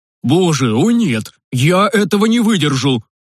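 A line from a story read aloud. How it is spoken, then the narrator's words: Panicked deep bass voice. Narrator (Russian): басил папа в панике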